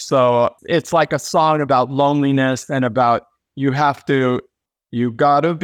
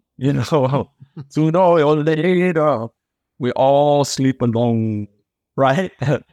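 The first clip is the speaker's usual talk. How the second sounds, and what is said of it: Imitates another person's voice, rough attempt. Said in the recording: “that wasn't my best Cher imitation”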